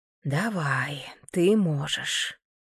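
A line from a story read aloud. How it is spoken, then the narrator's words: Whisper to oneself. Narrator (Russian): прошептала я себе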